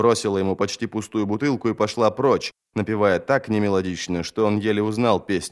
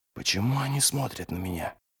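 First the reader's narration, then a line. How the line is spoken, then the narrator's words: Whisper. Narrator (Russian): прошептал он Джоду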